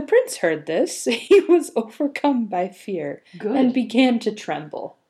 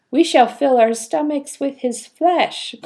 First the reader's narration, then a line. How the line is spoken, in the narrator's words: cried another